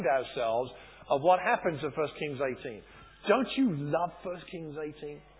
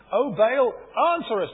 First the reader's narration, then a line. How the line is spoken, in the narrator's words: they shouted